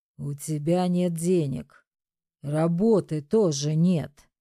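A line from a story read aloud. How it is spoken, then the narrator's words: Husband's furious hiss. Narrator (Russian): прошипел муж в ярости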